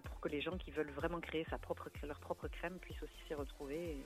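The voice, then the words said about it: Southern French Toulouse accent. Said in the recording (French): “Je suis basée à Toulouse. Ça s'entend à l'accent, non”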